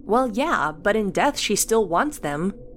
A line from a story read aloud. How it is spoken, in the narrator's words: Cassie replied